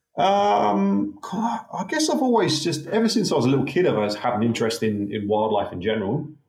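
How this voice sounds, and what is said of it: British accent. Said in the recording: “growing up in the UK, as you can tell from my dodgy accent.”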